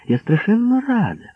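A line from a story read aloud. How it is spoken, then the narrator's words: Excited exclamation. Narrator (Ukrainian): побачивши нас, захоплено вигукнула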